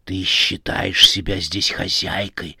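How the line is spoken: Frightening woman whispering. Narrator (Russian): зашептала страшная женщина

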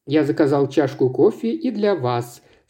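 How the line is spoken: Plain. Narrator (Russian): сказал Паркер Пейн

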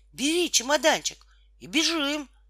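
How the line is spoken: Shouted. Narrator (Russian): закричала Тома

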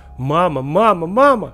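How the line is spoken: Screaming until hoarse. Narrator (Russian): Не успокаивался я и орал до тех пор, пока мой голос не охрип

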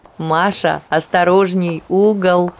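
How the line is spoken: Laughing. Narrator (Russian): Смеялась над стараниями сестры в одиночку перетащить кресло Анастасия

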